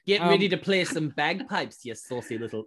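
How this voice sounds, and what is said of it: Botched Scottish accent drifting Irish. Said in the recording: “What is that accent? I don't know what that accent is. I just bailed out halfway through that one. ... You went half leprechaun there.”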